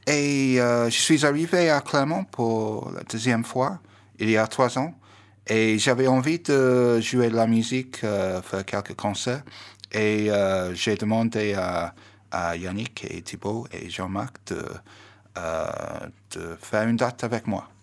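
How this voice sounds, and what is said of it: English accent speaking French. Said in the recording (French): “avec un si bel accent ? ... Moi, je viens de Liverpool. ... Donc je suis britannique.”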